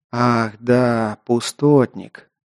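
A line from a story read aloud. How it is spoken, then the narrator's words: Quiet. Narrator (Russian): негромко проговорил эльф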